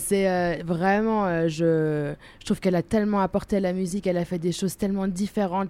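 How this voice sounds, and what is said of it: German accent speaking French. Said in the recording (French): “vous voyez mon accent, donc oui, je suis allemande”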